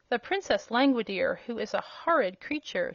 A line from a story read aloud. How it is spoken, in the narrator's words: she answered